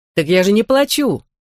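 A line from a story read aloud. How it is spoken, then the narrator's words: Exclaiming. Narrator (Russian): воскликнул Мерлин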